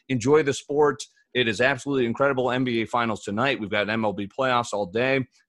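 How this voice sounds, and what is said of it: Partly lost, impaired voice. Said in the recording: “one day away from getting my voice back ... Apologize for my voice again”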